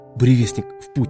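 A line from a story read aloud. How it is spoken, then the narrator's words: Whisper. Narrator (Russian): снова прошептал Элрик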